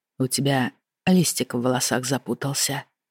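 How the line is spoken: Soft. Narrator (Russian): негромко произнес Ренальд

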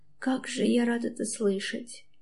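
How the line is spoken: Quiet speech. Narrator (Russian): тихо говорит

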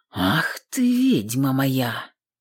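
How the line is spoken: Hot tender whisper. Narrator (Russian): Прошептал в самое ухо горячо, ласково

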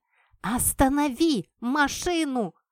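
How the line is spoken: Screaming at full lung. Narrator (Russian): Во всю мощь легких закричала я

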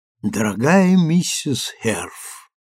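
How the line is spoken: Tender smiling recitation. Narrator (Russian): декламировал мистер Харпсигур, нежно заглядывая ей в глаза и улыбаясь своей кошачьей улыбкой

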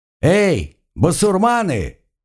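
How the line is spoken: Shouted. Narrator (Russian): крикнул я оркам

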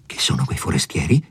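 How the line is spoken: Low-voiced question. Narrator (Italian): gli domandò poi a voce bassa

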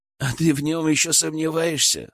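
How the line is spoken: Skeptical grunt. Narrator (Russian): хмыкнул Илья

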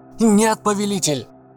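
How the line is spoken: Masked man shouting. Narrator (Russian): закричал человек в маске

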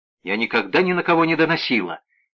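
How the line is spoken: Sharp cut-off. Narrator (Russian): резко оборвала

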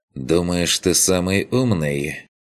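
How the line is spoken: Tired. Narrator (Russian): произнес тот устало

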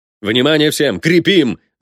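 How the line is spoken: Yelling over radio. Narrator (Russian): заорал Кленов в рацию

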